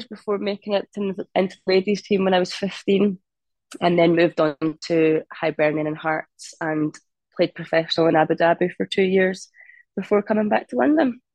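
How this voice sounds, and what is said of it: Scottish accent. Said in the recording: “I've got Scottish heritage. So whereabouts in Scotland are you? Is that accent from ... Never lost the accent.”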